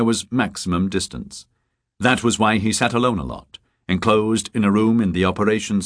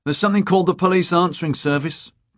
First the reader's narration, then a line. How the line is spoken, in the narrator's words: Torkelson said in a sulky tone